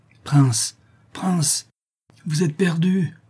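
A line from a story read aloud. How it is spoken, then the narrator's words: Wretched slave moaning. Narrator (French): gémissait le malheureux esclave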